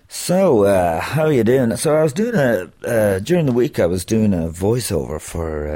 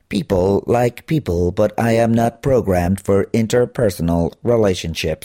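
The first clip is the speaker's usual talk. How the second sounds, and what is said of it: Robotic answering machine voice. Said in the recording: “doing this voice of an answering machine ... the robotic”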